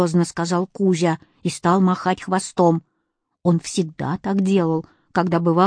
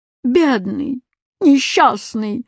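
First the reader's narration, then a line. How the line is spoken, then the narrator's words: Moan. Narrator (Russian): застонал восклицательный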